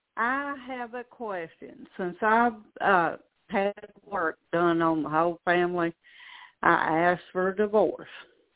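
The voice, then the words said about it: Speaks with a regional accent. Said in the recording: “I can tell by your accent. I love your accent because it's like mine.”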